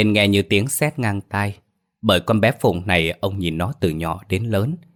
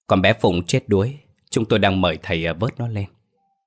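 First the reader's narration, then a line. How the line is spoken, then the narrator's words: Village chief, sad voice. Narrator (Vietnamese): trưởng làng đứng ra nói với giọng buồn rầu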